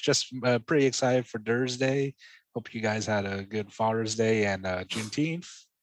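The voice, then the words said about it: Tired, low-energy voice. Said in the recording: “I'm kind of running out of gas. As you can uh, hear by my catchphrases and uh, I guess tone of voice.”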